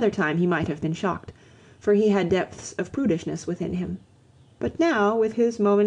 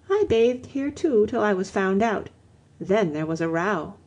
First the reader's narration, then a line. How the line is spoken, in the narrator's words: she answered dreamily